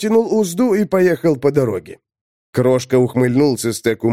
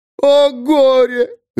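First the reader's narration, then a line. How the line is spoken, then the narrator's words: Yelling. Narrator (Russian): Заорала Апустелла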